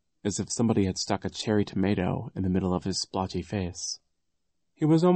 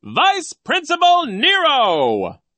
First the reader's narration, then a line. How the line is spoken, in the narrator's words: the man announced in a loud voice